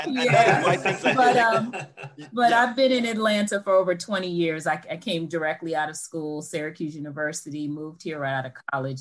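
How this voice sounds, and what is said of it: New York accent. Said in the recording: “I'm a New Yorker, if you can't hear the accent.”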